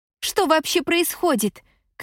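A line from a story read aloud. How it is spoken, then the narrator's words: Shout. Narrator (Russian): крикнула Шай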